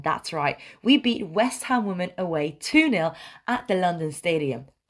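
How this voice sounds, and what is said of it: Chirpy, upbeat voice. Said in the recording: “my voice is very chirpy”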